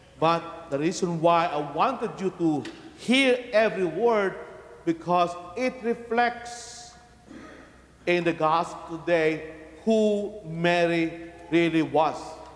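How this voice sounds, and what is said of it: Heavy foreign accent. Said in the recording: “I have a heavy accent”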